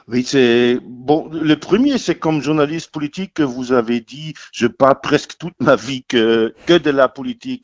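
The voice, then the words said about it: Light German accent in French. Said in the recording (French): “Votre léger accent trahit vos origines germaniques.”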